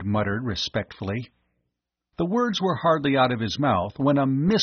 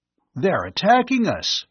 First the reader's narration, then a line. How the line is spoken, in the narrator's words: Bud cried out